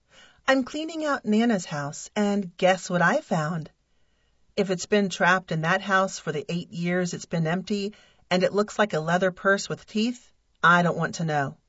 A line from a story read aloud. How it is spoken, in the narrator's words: replied